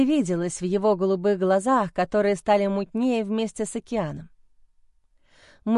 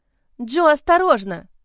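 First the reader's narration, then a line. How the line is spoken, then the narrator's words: Crying out. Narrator (Russian): вскрикнула я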